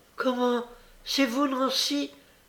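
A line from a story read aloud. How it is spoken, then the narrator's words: Exclaimed. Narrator (French): s'écria Olivier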